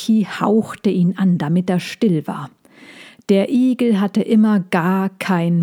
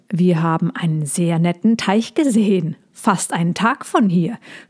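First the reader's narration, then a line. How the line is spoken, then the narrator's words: Gruff suggestion. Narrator (German): schlug der Igel knurrig vor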